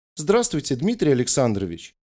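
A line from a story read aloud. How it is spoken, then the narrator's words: Cheerful greeting. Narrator (Russian): Весело поздоровалась она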